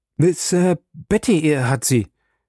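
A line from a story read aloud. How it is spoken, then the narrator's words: Stammering. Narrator (German): stotterte er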